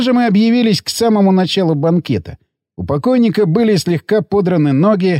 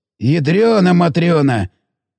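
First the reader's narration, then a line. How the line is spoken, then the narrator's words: Hoarse exhaled words. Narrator (Russian): выдохнул сипло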